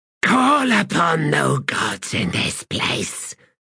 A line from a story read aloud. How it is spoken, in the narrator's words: she hissed